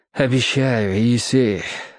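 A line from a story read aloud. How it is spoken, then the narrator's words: Gentle. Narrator (Russian): ласково сказал он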